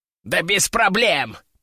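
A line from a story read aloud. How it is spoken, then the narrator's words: Squeaky voice. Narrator (Russian): пропищал Кеша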